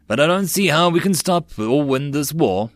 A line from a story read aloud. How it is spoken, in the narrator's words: the Rock sighed